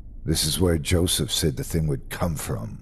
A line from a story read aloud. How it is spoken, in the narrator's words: said bitterly